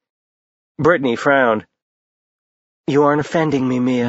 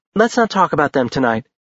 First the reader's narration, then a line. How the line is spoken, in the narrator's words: Brittany said in a bright voice